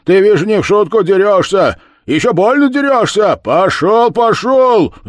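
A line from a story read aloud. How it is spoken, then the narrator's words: Shouting blacksmith. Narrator (Russian): закричал кузнец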